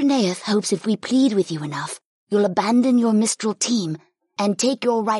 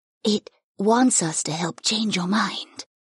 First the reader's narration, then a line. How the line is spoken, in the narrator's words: Keela revealed in a quiet voice